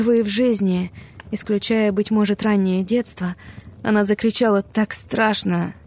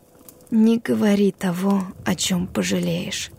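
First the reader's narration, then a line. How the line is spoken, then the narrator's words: Very quiet. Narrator (Russian): сказала она на этот раз очень тихо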